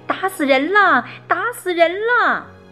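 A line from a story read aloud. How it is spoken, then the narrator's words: Anguished screaming. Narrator (Chinese): 叶圆圆痛苦地叫喊着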